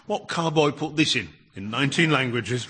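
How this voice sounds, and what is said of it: Put-on accent like Dick Van Dyke. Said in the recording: “Was that an accent you just did? ... I closed my eyes and Dick Van Dyke was in the room.”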